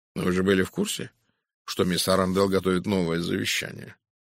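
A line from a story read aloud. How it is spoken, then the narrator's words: Calm question. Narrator (Russian): спокойно спросил Пуаро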